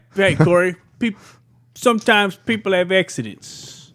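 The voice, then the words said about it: Weird put-on Italian accent. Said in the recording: “I did a fucking weird accent, yeah. But I tried to do the Italian thing. ... Italian very, thing. Very mixed signals”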